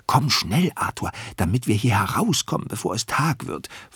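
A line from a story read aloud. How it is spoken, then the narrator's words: Whispered. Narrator (German): flüstert Dominik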